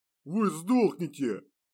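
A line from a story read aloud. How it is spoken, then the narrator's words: Growled. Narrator (Russian): прорычал Сбыслав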